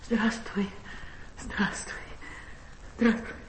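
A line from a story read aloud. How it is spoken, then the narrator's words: Quiet, laughing, at a loss. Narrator (Russian): засмеялась, часто мигая глазами, и, не находя слов, тихо говорила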